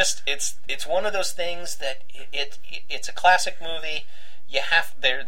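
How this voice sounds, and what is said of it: Usual voice. Nothing is said of it.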